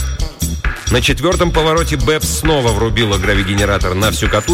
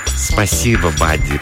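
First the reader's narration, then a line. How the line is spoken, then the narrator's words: Cooed in reply. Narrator (Russian): проворковала Бэбс в ответ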